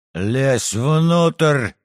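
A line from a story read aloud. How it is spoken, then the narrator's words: Barked command. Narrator (Russian): рявкнул офицер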